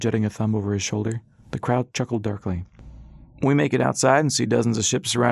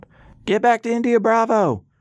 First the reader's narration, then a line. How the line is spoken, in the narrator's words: A voice called out